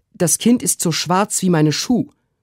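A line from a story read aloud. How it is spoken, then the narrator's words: Called out. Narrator (German): rief Susanna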